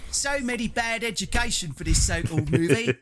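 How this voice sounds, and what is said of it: Dick Van Dyke Mary Poppins impression. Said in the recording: “I'll do a different voice. ... do Dick Van Dyke from Mary Poppins.”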